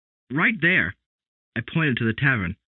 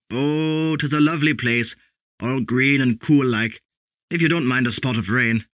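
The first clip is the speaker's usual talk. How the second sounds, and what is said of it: Funny Irish accent. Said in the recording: “He had a funny accent.”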